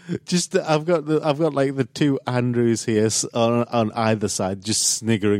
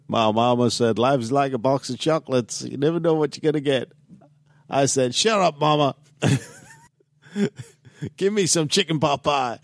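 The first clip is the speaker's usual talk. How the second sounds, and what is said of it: Bad Alabama accent, Forrest Gump. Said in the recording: “That's a really, really bad... Alabama accent.”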